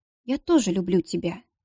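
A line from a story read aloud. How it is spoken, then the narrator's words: Quiet, tender. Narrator (Russian): тихо сказала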